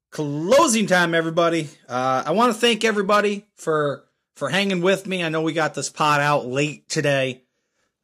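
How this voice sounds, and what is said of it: Rough, worn-out voice. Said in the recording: “Some travel and being tired. As you can hear, my voice was a little beat up.”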